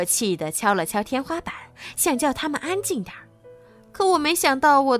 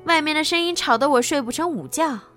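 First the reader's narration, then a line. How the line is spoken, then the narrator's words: Loud laughter. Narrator (Chinese): 贝塔大笑道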